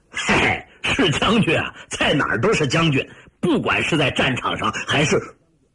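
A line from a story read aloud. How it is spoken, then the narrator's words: Loud, laughing. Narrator (Chinese): 李云龙笑着大声说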